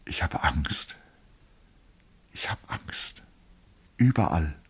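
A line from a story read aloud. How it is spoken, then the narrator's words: Whispering. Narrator (German): flüsterte er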